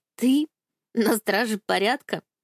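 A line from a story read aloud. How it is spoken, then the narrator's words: Gasp, giggling. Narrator (Russian): ахнула, хихикнув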